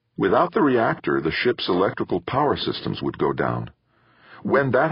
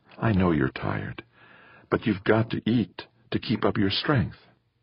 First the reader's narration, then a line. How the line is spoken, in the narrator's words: his mother said gently